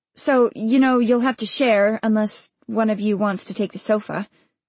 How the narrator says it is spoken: she said

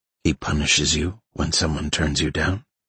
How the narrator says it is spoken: He whispered back

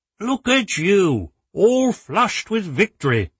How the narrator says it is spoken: Jerry continued, unperturbed

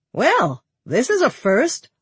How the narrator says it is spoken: Lonnie exclaimed, looking as shocked as Michelle did

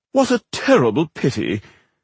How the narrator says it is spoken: said Rodario in an exaggeratedly aristocratic voice

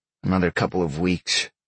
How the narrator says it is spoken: Sean grumbled

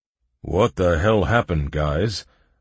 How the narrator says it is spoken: boomed an approaching gnome with a spade beard

